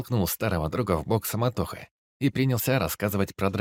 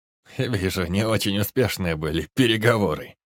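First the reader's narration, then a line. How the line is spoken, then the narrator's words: Loud laughter, dog. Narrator (Russian): расхохотался пес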